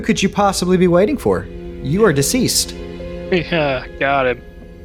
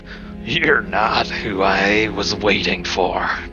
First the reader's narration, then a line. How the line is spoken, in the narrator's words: It's a ghost of a beholder, and it just cackles and says